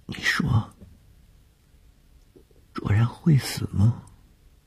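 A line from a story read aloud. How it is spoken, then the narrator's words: Frightened, offhand question. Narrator (Chinese): 谢小婷在天亮之前的惊恐中一句无意的问话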